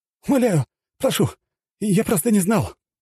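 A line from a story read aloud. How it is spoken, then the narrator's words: Pleading. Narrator (Russian): взмолился тот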